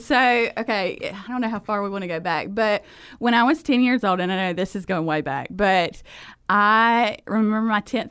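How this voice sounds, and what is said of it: Thick Southern US accent. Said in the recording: “a girl from South Georgia with a thick Southern accent”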